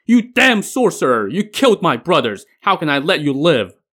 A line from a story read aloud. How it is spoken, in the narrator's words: a thunderous roar from the sky as someone shouted